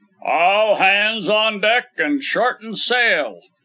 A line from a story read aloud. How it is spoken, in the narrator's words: the order was roared out